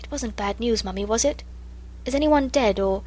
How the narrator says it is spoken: whisper

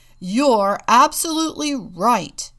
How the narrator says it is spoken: roared Papa

